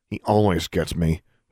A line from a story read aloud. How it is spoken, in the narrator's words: muttered